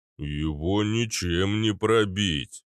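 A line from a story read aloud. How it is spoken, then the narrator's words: Deep booming rumble. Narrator (Russian): прогудел гигант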